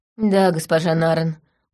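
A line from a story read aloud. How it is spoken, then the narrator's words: Dejected. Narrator (Russian): уныло сказал Анельд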